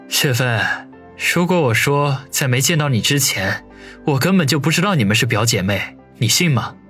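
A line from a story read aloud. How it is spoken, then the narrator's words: Feigned anger. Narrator (Chinese): 林雪飞装作十分恼怒的说道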